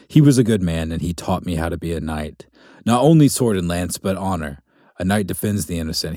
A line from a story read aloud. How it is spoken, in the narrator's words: he said